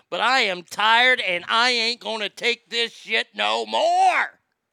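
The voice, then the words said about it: Angry yelling. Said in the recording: “I might lose my voice on the air, and I'm sorry for yelling”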